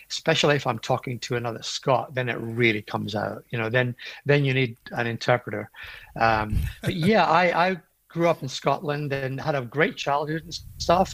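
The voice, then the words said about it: Scottish brogue. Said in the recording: “born in Edinburgh, you haven't really lost the accent too much ... I still have a lot of the brogue”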